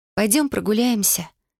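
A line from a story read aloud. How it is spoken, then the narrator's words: Quiet suggestion. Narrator (Russian): тихо предложила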